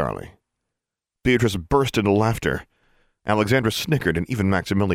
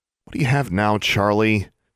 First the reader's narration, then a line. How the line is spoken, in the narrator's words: she asked